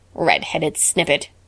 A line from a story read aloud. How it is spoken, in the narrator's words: croaked Ginger mockingly